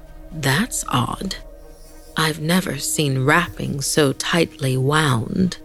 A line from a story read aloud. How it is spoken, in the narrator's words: Frowning, muttered